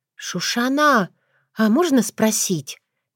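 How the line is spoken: Hesitant, uncertain. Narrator (Russian): неуверенно начала Таня

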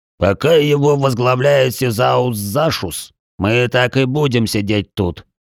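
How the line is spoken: Angry growl. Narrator (Russian): прорычал Тигран

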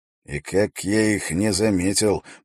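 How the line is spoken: Muttered. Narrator (Russian): пробормотал Эрик Свенгалу

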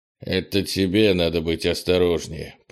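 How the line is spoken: Grumbling. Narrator (Russian): проворчал Крис

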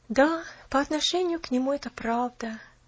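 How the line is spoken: Sighing. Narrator (Russian): наконец вздохнула она

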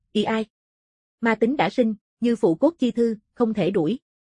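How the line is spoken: Sighing, resigned. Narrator (Vietnamese): Tử Hàn lắc đầu, thở dài

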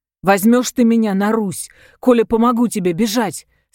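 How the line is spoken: Dreamy tearful question. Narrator (Russian): спросил Абдулка с мечтательной улыбкой сквозь слезы

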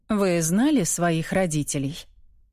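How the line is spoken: Gentle question. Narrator (Russian): Мягко спрашиваю

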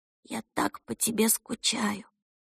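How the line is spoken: Muffled whisper. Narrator (Russian): шептала, уткнувшись носом в обивку водительского сиденья

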